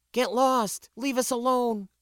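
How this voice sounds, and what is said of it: Terrified neutral-accented female character voice. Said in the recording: “It was good English and without a regional accent, what we often referred to as a spacer's tone ... plainly terrified”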